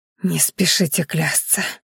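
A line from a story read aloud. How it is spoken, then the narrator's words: Hoarse rasp. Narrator (Russian): прохрипела Майяри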